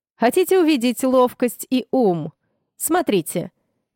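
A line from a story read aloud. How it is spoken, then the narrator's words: Loud, attention-grabbing. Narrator (Russian): громко произнес Фарлей, чтобы даже тот, кто оказался под столом, высунул оттуда нос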